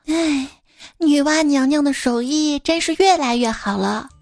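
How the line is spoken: Sighing in admiration. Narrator (Chinese): 感叹道

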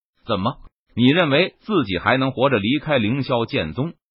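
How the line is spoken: Soft laughing. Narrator (Chinese): 一道轻笑声

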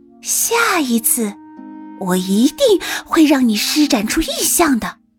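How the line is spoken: Soft. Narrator (Chinese): 轻声道

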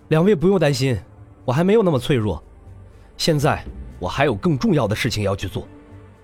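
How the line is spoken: Forced smile. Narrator (Chinese): 洛尘勉强的挤出一个笑脸

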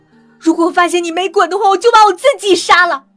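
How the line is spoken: Hysterical screaming. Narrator (Chinese): 他在店里歇斯底里的喊

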